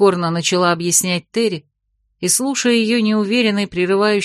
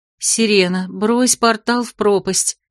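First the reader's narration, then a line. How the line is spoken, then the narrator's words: Quiet telling. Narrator (Russian): тихо рассказывала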